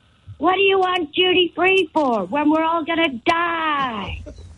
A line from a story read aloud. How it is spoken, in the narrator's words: yelling over